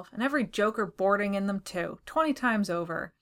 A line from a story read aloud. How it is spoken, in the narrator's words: he growled to himself